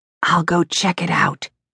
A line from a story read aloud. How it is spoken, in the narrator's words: whispered